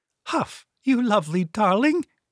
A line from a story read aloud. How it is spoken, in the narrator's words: quavery voice